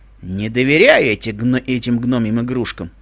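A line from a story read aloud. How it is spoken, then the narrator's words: Grumbling. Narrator (Russian): проворчал он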